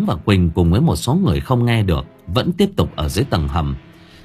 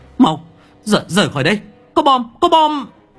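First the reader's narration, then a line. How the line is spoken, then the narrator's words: Urgent shout. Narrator (Vietnamese): Lập tức Kỳ hét lên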